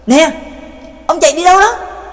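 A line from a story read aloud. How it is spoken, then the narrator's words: Anxious shout. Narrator (Vietnamese): Trác Mộc Cường Ba vẫn không yên tâm, hét lớn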